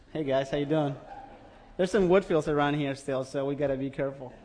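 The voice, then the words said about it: Foreign, non-New Zealand accent. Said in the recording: “this foreigner who's got this accent. That is not a necessarily New Zealand accent.”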